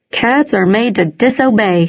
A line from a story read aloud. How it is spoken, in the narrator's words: said, laughing